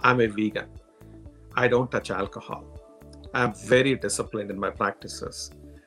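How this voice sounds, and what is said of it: Strong Indian English accent. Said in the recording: “coming from India, with my strong Indian accent”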